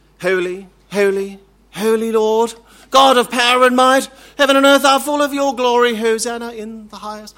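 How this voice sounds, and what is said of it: Upper-crust British, Archbishop of Canterbury. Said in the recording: “my accent to suddenly shift from bogan Australian to, you know, upper crust British, you know, Archbishop of Canterbury”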